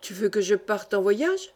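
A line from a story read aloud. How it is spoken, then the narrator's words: Exclaimed. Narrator (French): s'écria-t-il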